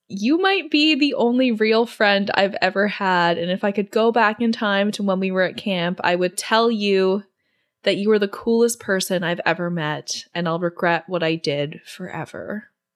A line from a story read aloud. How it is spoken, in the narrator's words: Drea just kind of starts laughing and says